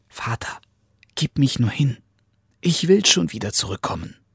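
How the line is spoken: Whisper in ear. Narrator (German): Daumes Dick wisperte ihm ins Ohr

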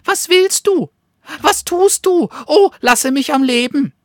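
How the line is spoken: Frightened squeak. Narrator (German): piepste die Fledermaus in Angst

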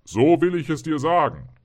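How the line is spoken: Calling out. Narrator (German): rief der Geist

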